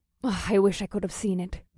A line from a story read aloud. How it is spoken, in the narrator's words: the Zaborian historian said in a wistful voice